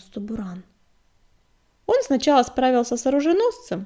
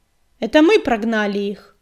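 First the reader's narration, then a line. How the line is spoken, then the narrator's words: Barked. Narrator (Russian): рявкнула она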